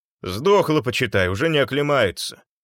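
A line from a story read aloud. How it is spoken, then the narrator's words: Grumbled. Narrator (Russian): проворчал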